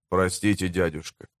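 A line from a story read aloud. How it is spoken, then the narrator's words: Mumbled. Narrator (Russian): пробормотал он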